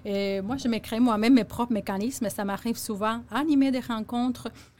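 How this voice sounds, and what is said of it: Strong non-native accent in French. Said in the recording (French): “j'ai un gros accent, des fois, je ne prononce pas comme il faut”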